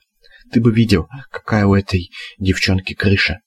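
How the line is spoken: Whispered. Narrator (Russian): сказал шепотом

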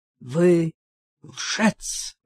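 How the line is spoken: Hoarse rasp. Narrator (Russian): прохрипел

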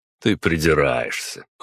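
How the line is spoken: Wry snort. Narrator (Russian): хмыкнул я

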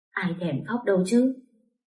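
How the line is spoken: Tearful reproach. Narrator (Vietnamese): Tôi lau lau nước mắt, tôi trách

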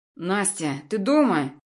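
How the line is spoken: Irritated voice. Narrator (Russian): Голос Антона звучал раздраженно

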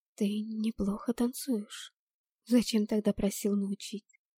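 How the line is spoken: Soft careful whisper. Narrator (Russian): прошептала я, боясь спугнуть прекрасный момент

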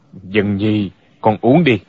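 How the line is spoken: Stern, displeased. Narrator (Vietnamese): Thích Trường Phát cảm thấy lời của Dạng Khuê thật khó nghe, nghiêm giọng nói

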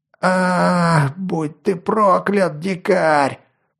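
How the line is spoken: Roaring big man. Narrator (Russian): проревел детина

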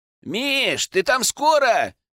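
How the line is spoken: Impatient shout. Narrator (Russian): нетерпеливо приплясывая возле калитки, крикнул

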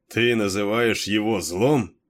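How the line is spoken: Mocking question. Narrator (Russian): насмешливо переспросил Кейн

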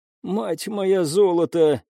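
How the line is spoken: Hoarse wheeze. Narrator (Russian): прохрипела Элина

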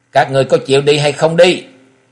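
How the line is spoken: Tiger-like roar. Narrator (Vietnamese): Lão nhân gầm lên một tiếng như mãnh hổ

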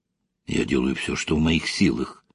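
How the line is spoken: Whispered reply. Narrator (Russian): также шепотом ответил Вадим Арсеньевич

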